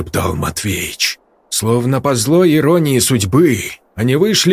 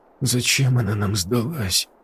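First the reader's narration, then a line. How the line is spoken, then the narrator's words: Mutter. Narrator (Russian): пробормотал Игорь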